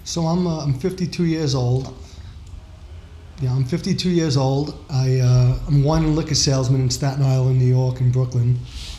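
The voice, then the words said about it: New York accent. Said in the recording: “love that accent, New York.”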